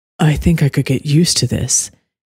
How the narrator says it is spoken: Caden purred

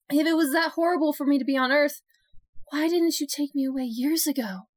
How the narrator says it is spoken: She cried

